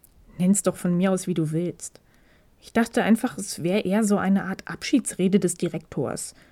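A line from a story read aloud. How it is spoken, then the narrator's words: Slightly sour murmur. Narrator (German): murmelte Takeda in leicht säuerlichem Tonfall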